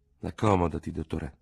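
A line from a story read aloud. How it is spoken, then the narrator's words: Murmured. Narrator (Italian): mormorò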